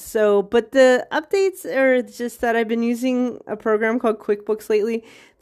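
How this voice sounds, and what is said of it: Slightly congested voice from cold. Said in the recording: “I have a little cold”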